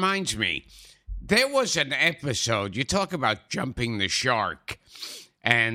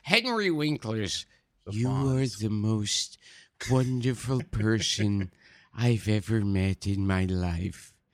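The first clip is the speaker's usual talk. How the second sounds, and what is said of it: Vincent Price-like impression. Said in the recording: “that's a lot like your Vincent Price impression too”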